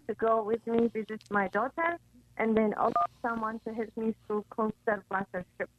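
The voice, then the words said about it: Very heavy accent. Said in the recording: “you have a very heavy accent.”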